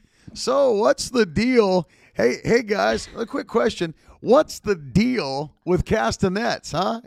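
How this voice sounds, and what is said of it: Imitates another person's voice. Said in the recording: “my impression of”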